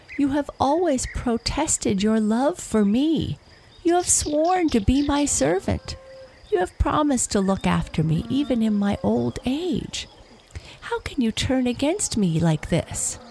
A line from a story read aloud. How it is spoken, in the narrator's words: pleaded the wolf